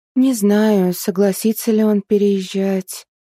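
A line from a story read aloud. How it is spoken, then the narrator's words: Drawling. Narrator (Russian): протянула Арина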